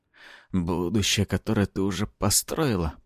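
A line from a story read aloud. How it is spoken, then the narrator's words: Moaning. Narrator (Russian): простонал я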